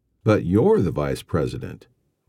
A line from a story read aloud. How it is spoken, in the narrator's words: Mario said